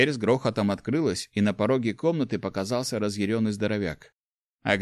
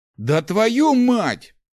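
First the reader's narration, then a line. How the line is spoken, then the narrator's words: Roar. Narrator (Russian): взревел Гош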